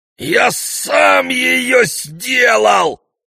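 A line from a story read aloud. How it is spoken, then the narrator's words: Furious roar. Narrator (Russian): взревел от ярости Перифет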